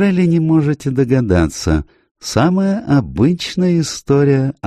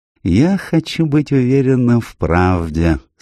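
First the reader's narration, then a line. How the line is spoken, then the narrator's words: Sad. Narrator (Russian): сказал Пуаро печально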